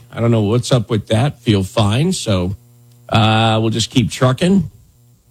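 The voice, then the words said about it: Grizzled, rough morning voice. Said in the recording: “my voice sounds a little grizzled this morning”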